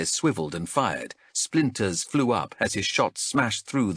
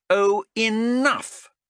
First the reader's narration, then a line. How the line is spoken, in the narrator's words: Xenthi shouted, a look of irritation breaking out across her face at last